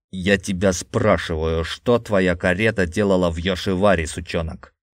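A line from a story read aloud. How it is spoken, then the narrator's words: Angry growl. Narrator (Russian): рычал Якудза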